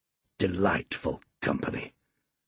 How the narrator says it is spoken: muttered Heathcliff

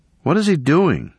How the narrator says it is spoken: said in an anxious tone

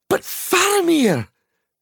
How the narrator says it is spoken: cried Pippin

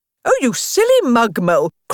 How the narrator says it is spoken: cried Toad

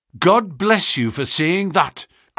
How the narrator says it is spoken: cried Miss Harrison

